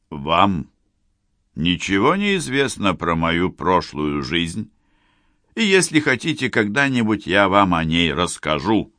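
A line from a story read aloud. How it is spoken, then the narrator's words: Stern. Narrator (Russian): строго сказал он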